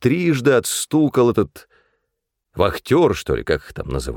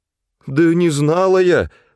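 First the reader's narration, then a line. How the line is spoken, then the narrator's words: Pleading. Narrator (Russian): взмолилась мать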